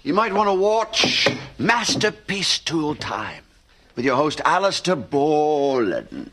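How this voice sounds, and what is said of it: Put-on English accent. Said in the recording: “Would that be an English accent?”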